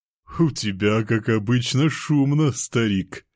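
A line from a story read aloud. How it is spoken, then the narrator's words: Chuckle, woman. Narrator (Russian): хохотнула мисс Лебедь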